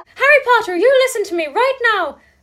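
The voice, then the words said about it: Imitates a fictional character's voice. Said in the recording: “good Luna impression”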